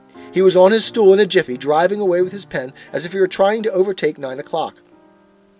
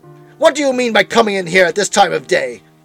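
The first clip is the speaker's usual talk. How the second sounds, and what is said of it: Growling gruff voice of Scrooge. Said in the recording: “growled Scrooge, in his accustomed voice, as near as he could feign it”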